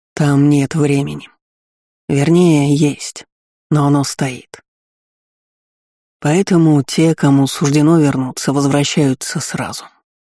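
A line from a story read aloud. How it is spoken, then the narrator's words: Dull gloomy voice. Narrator (Russian): тусклым голосом пояснил помрачневший командир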